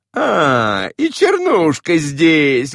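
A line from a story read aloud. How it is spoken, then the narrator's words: Laughing. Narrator (Russian): говорила она, смеясь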